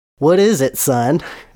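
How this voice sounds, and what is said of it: Southern accent for the Reverend. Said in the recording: “he has a southern accent.”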